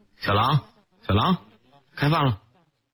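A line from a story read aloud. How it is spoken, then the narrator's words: Loud call. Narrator (Chinese): 陈震大声喊叫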